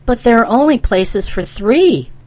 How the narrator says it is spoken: exclaimed

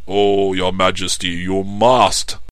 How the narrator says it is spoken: cried all of the five High Counselors

